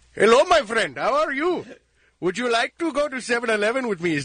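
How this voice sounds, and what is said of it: Put-on Indian accent. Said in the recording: “Oh, an East Indian accent. ... what he said was perfect”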